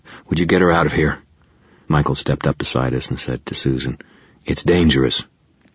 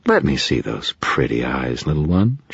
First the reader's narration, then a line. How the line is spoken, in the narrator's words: she purred